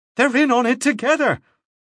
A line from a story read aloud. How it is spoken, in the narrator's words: Clinch cried